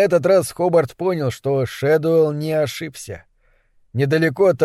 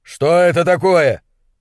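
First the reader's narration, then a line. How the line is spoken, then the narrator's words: Shouting over wind. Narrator (Russian): Хобарт кричал, стараясь заглушить ветер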